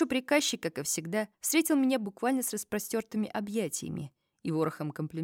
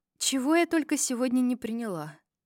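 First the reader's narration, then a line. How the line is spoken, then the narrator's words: Sigh. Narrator (Russian): вздохнула я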